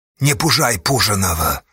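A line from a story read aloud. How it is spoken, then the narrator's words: Gruff grunt. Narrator (Russian): буркнул Асташа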